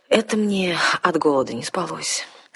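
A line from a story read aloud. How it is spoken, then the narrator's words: Mock-sad sigh. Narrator (Russian): с наигранной печалью вздохнул вампир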